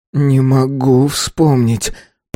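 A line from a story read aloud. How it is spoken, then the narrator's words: Moan. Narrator (Russian): простонал Рик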